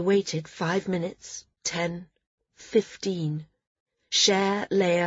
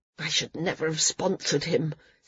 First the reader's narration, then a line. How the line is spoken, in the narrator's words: Sina grumbled